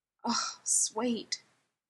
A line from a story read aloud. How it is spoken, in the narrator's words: was moaning, having broken out into an instant sweat